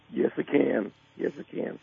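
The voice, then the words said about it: Hoarse, partly lost voice. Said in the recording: “I've just been coughing a lot and, of course, yelling a lot. So my voice is a little gone.”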